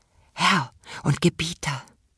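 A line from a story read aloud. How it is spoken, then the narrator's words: Soft whisper. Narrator (German): flüsterte er leise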